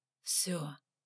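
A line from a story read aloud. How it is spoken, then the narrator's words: Mumbling. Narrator (Russian): пробормотал Саргон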